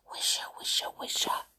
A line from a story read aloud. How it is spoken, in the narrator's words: the trees whispering secretly to one another